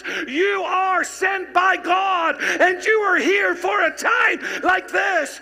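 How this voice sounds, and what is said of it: Shouting preacher. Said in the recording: “why are you shouting?”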